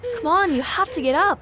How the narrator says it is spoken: gasped

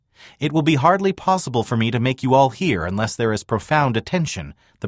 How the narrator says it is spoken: the prophet called out above the weather

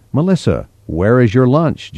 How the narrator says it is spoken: Jennifer asked

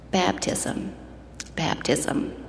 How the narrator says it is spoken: in almost a whisper replied

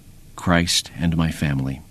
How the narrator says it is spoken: Quietly, replied

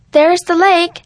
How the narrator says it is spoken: Sarah shouted

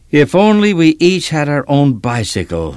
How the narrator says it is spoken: Matthew sighed

